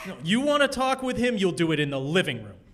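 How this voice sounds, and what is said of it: Raised, shouting voice. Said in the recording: “raise my voice”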